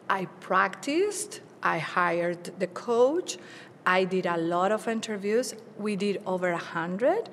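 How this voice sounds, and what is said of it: Non-native English accent. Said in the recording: “I know I have an accent. I'm very proud of my accent because I learned English at the age of 30th when I moved to the United States.”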